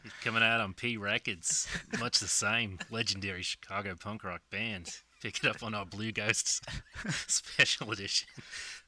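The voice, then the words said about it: Put-on Australian accent. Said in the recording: “in your Australian accent? ... That's as best I can do right now. ... It's not bad.”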